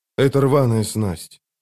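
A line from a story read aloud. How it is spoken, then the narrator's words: Lifeless voice. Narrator (Russian): безжизненным голосом проговорил он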